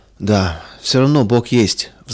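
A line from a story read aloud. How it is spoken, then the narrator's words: Sighing. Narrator (Russian): вздохнул он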